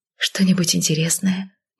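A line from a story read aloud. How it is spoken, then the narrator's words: Impulsive whisper. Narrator (Russian): не подумав, шепнула я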